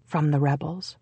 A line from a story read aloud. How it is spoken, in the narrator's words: a woman whispered in explanation